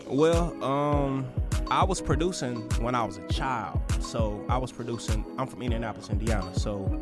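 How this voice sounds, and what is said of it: Slight regional accent. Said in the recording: “that's that little accent”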